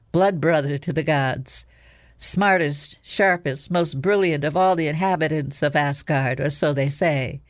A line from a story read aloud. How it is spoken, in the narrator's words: said the fox smoothly